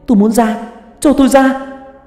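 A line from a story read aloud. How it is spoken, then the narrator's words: Desperate screaming. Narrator (Vietnamese): tôi gào lên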